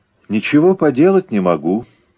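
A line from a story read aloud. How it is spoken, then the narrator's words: Calm. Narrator (Russian): сказал он спокойно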